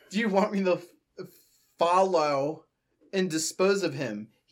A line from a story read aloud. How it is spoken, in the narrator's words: He asked, lisping his words